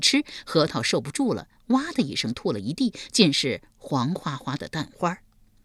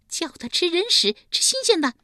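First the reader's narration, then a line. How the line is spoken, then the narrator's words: Shrill command. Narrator (Chinese): 立即尖声尖气地命令道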